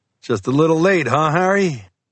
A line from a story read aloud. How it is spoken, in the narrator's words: The lieutenant laughed